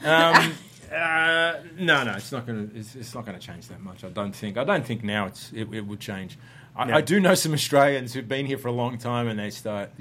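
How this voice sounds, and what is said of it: Mild Australian accent. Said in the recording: “your accent used to be thicker, and now it's kind of, it's still there. I can hear it, but it's not as thick”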